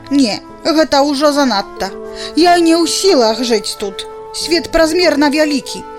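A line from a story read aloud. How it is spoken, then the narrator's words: Exclaiming. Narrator (Belarusian): усклікнула яна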